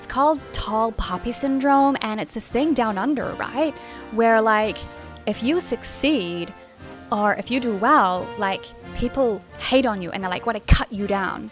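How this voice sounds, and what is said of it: Poor attempt at Australian accent. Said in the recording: “Please excuse my terrible accent.”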